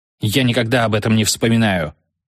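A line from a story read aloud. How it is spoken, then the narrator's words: Sharp curt doctor. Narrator (Russian): резко бросил доктор Эпштейн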